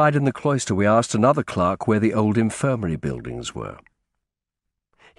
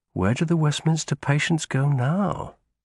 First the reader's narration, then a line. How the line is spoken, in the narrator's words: I asked quietly